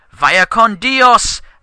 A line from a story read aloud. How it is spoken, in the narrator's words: shouted